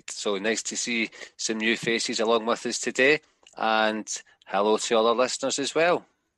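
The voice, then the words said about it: Scottish accent. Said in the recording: “my accent also suggests that I'm from Scotland”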